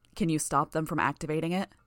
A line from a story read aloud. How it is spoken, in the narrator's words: Gru asked